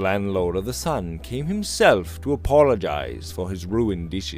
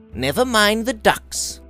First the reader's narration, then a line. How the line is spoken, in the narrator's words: Robert said impatiently